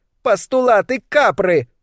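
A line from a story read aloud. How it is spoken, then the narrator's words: Shouted reply. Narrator (Russian): прокричала в ответ Аполлин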